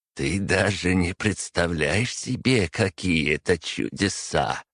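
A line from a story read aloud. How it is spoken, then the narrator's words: Kindly laughing old man. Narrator (Russian): по-доброму рассмеялся старичок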